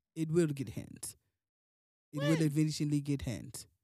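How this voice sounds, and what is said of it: Put-on accent. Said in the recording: “I feel like I'm doing a good job with this accent now.”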